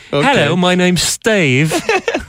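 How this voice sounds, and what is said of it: Put-on British accent. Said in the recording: “They're a British accent. Well, one has a British accent.”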